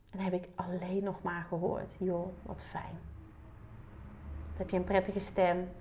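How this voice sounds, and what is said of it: Soft southern Dutch Limburg accent. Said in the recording (Dutch): “Mijn zuidelijke accent, Limburgse accent, werkt ook mee in, in de zachtheid”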